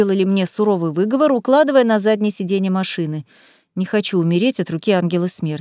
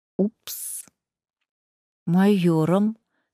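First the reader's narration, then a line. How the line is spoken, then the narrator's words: Quiet embarrassed admission. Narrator (Russian): тихо призналась я, больше всего желая испариться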